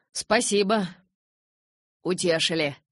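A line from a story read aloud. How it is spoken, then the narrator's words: Snort, then loud laughter. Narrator (Russian): Фыркнул папа и расхохотался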